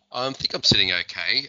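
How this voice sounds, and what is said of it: Slightly rusty, hoarse voice. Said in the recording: “My voice is still a bit rusty, if you notice. Have had COVID”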